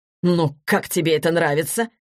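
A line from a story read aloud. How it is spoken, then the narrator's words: Irritated question. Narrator (Russian): раздраженно спросил продюсер у Егора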